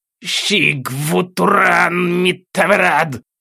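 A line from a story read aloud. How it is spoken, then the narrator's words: Growling, spitting blood. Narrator (Russian): прорычал одаренный, плюясь кровью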